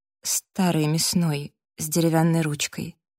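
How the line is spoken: Soft. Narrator (Russian): мягко сказала Эбби

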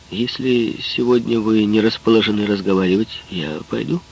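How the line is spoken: Plain. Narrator (Russian): сказал он

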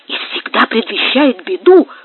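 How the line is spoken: Whisper. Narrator (Russian): шепотом ответил Гомес

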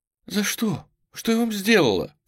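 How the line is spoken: Sobbing question. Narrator (Russian): всхлипывая, спросил Эрин

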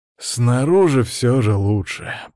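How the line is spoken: Deep relieved sigh. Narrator (Russian): полной грудью вздохнул

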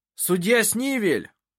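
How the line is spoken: Shout. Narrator (Russian): крикнул он

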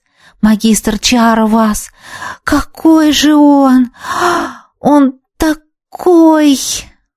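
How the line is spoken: Breathless, admiring young woman. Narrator (Russian): выдохнула восхищенно девушка

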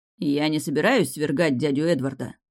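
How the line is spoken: Angry. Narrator (Russian): сказал сердито

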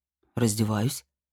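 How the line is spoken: Calm, matter-of-fact. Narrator (Russian): совершенно спокойно ответил он, как будто объяснял очевидные вещи

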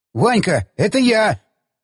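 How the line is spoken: Yelling young man. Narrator (Russian): заорал молодой снайпер

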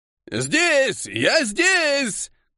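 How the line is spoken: Old man shouting. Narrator (Russian): крикнул старик

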